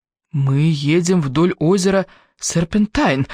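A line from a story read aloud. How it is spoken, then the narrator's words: Exclaimed. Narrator (Russian): воскликнул Квентин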